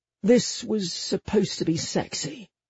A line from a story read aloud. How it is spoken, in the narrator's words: I muttered